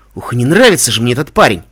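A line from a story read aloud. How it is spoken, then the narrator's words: Hiss. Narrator (Russian): зашипел Эпплджек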